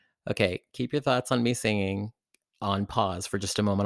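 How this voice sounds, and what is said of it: Usual voice. Nothing is said of it.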